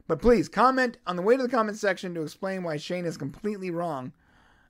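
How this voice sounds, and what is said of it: Tired, mumbling voice. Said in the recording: “I'm tired, so it's clear that I'm mumbling a lot.”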